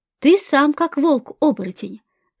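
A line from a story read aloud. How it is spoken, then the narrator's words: Thoughtful. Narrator (Russian): задумчиво произнес третий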